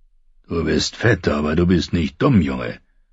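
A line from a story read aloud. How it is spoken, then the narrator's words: Gruff old bear. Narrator (German): sagte der alte Bär barsch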